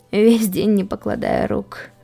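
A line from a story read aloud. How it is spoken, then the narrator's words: Weary exhale. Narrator (Russian): выдохнул он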